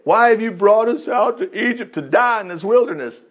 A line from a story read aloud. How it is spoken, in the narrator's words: They whined